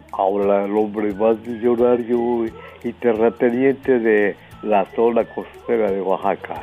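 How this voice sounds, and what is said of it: Rich radio-announcer style voice. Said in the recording (Spanish): “esa voz de locutor? ... qué bonita voz tiene usted. Debió de actuar en radionovelas.”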